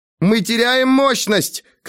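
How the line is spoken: Shout from cabin. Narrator (Russian): крикнула из кабины Сейхан

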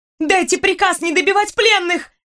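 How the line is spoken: Shouting, breaking into shriek. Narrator (Russian): Я кричала, срываясь на виск

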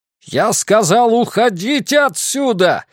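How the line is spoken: Shouted. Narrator (Russian): закричал Лазарус

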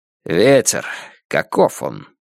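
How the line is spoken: Dry question. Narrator (Russian): сухо спросил звон

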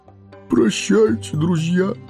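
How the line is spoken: Sobbing. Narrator (Russian): всхлипнул он

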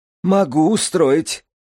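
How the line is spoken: Laughing. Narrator (Russian): Маттер засмеялся

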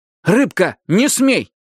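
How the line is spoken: Stern bark. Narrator (Russian): гаркнул Ки со всей строгостью и полным правом старшего

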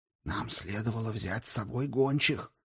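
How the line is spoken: Whispered. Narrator (Russian): прошептал он Хакатри

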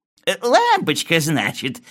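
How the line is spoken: Giggling old man. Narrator (Russian): сказал старичок, хихикая

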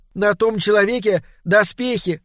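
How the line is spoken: Shout. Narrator (Russian): снова крикнула Доркас

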